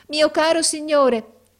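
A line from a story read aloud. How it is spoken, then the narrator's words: Shouted. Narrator (Italian): gridò essa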